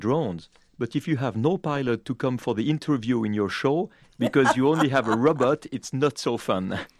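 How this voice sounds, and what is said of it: Accent like Jacques Cousteau's. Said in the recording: “it's wonderful to hear your accent. I hearken back to Jacques Cousteau”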